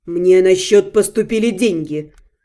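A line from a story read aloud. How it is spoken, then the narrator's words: Dry. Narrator (Russian): сухо уведомил он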